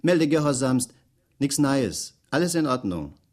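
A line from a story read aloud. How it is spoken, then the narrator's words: Calling out. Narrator (German): rief er salutierend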